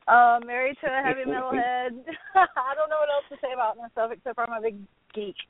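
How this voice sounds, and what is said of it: Southern American accent. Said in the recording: “I'm a Southern girl, obviously. You can tell from the accent.”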